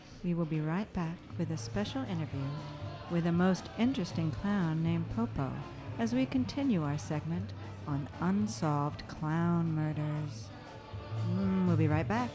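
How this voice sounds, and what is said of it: Put-on sexy voice. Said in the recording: “put on my sexy voice”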